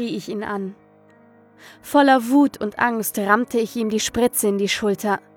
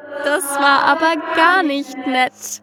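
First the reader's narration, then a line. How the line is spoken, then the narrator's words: Amused, wicked giggle. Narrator (German): kicherte das Ding belustigt und böse zugleich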